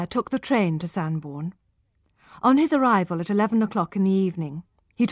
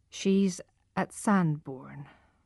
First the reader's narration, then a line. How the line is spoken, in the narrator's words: Tess's mother replied in a low voice